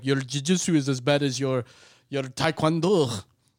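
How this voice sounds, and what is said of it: Bad imitation of another person's accent. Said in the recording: “Which now that's my new Liam ... Nielsen ... you're on the bad accent train”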